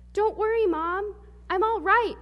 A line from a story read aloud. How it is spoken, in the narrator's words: shouted George